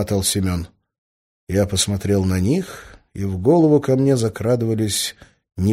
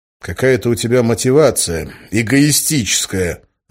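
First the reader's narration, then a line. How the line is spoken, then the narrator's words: Angry. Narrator (Russian): зло сказал я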